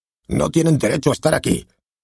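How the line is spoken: Exclaimed. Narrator (Spanish): exclamó

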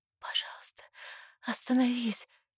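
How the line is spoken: Faint hoarse rasp. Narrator (Russian): Хриплю, но почти не слышу своего голоса из-за грохочущего сердца

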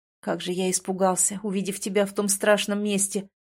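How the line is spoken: Relieved sigh. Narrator (Russian): вздохнул он

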